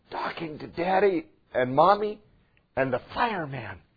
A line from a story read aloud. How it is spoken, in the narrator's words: whispered the child